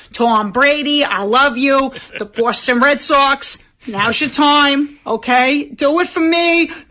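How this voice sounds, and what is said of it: Put-on Boston accent. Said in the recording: “doing the Boston accent”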